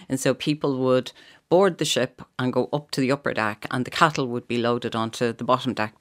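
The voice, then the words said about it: Slight Dublin accent. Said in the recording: “I hear a bit of the Dublin coming through the odd time. ... The way you say now.”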